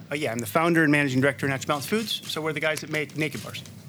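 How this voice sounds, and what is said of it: American Midwestern accent. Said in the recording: “you're not from here ... He is from the U.S. He is a Midwesterner from Ohio ... that accent”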